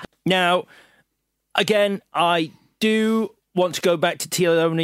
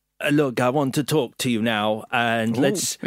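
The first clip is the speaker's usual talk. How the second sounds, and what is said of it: Improvised Germanic-sounding accent impression. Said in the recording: “This is a new impression. ... I couldn't work out what his accent was ... Just fucking went for it. ... He's Austrian. Maximilian Schell. ... Maybe Austrian, Swiss, German.”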